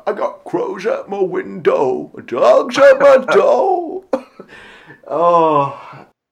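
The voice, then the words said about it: Imitates another person's singing voice. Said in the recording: “do an impression of Paul singing from that song”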